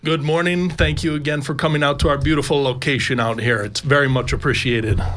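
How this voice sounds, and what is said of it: American Colorado accent. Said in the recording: “I'm picking up the accent. The accent is from Colorado in the good old US of A.”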